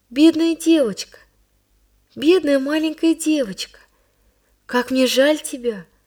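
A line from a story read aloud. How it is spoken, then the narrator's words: Sad voice. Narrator (Russian): проговорила она печально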